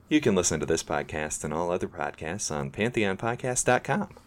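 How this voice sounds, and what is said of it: Radio announcer voice. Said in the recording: “did you like that radio voice?”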